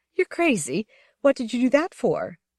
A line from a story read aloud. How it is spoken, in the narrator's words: laughed, a soundless laugh mixed with shivering